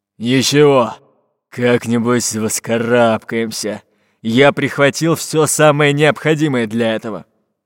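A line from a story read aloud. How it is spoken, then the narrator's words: Pirate grumbling. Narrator (Russian): пробурчал пират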